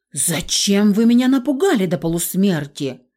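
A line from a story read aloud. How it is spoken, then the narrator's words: Angry hiss. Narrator (Russian): рассерженно зашипела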